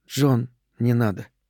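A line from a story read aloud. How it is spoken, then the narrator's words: Quiet. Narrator (Russian): Ариэль тихо сказала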